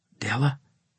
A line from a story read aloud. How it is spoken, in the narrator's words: I asked in a whisper